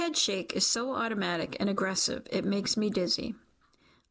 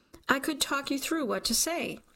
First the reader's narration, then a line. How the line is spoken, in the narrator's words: he insists, eyes giant and pleading